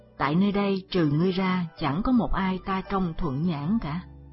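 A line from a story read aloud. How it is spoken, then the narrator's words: Sighing. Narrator (Vietnamese): Hắn thở dài tiếp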